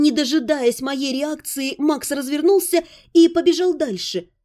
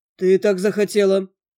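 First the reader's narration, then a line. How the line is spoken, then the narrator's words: Dry reply. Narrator (Russian): сухо прозвучало в ответ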